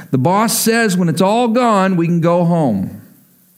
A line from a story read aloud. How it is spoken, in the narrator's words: she yelled out so that everyone could hear